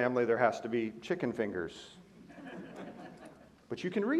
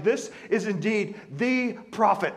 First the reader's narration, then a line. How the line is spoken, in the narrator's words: they were so enthralled with his miracle that they exclaimed